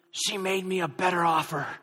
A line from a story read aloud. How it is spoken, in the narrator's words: he whispered